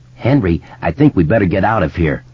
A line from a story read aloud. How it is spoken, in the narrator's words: Moose said